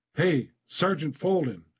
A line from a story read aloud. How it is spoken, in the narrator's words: I yell